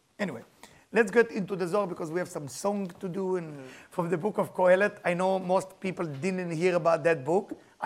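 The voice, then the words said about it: Non-native English accent. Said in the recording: “with my accent, I cannot even say the name of the book in English”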